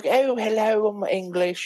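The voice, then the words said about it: Wacky Russell Brand-like English voice. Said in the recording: “the guy's voice is like too like nice ... It's like a Russell Brand wacky Englishman”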